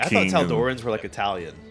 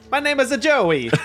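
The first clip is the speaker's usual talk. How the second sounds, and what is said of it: Bad put-on Italian accent. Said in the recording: “the really bad Italian accent”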